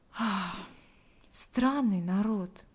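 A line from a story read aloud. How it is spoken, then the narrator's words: Silent inner sigh. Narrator (Russian): мысленно вздохнула она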